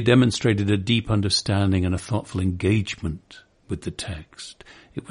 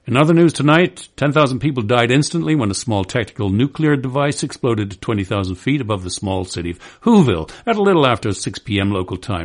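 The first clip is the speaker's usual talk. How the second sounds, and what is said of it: Hurried, casual, careless news reading. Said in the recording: “carelessly serving up the text hurriedly and casually ... my imitation of a style of casual delivery that I call throwing it at me”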